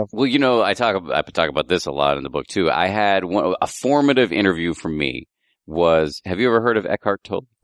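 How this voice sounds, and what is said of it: Hoarse, strained voice. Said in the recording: “I'm losing my voice a little bit”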